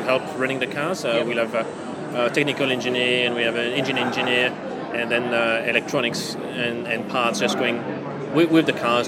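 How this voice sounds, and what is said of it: French accent. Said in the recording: “your accent says you're French”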